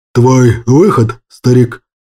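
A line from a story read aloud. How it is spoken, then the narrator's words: Breathy exhale. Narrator (Russian): выдохнул Кощей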